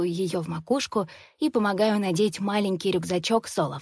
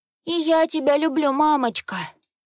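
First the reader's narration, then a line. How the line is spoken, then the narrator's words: Whimpering. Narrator (Russian): Скулит Лизи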